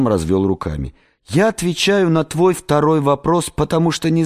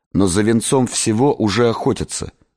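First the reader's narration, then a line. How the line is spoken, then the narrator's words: Plain. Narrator (Russian): сказал я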